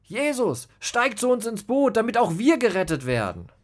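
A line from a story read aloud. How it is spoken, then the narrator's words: Called out. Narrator (German): Judas rief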